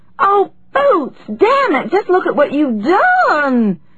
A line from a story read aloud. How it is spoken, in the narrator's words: she wailed